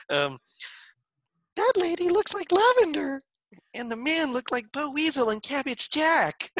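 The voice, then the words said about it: Falsetto character voice. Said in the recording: “Falsetto is impressive.”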